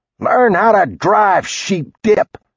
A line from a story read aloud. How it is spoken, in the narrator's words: he shouted